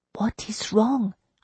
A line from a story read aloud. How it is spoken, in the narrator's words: I whispered